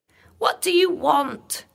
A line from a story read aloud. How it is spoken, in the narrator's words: cried